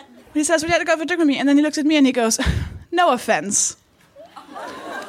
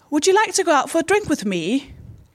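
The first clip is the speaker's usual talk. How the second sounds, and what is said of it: Put-on accent. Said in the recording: “Did I do the accent right?”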